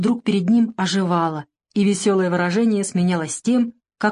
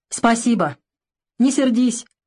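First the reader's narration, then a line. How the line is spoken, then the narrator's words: Shouted after someone. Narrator (Russian): крикнул Савелий вдогонку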